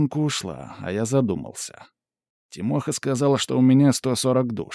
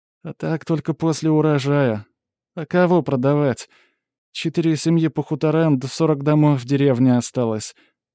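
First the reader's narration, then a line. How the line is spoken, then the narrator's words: Sighing reminder. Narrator (Russian): напомнила она, вздохнув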